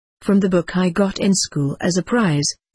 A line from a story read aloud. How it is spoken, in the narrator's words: I answered